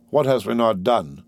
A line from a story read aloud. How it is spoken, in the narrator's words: coldly demanded the Indian